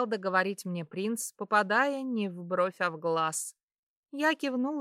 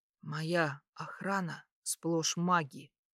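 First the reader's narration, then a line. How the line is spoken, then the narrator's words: Near whisper. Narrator (Russian): практически прошептал он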